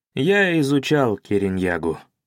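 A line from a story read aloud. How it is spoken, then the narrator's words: Sad, anticipating answer. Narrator (Russian): ответил я печально, поскольку предугадывал его следующий вопрос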